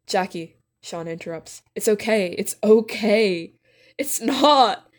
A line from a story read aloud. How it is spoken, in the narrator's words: Jackie sobs